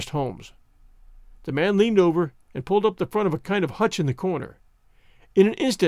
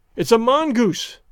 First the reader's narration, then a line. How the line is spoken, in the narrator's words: I cried